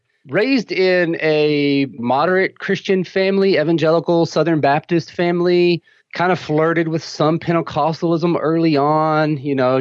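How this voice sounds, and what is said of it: Texan accent. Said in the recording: “raised in Texas. You could probably hear that in my accent.”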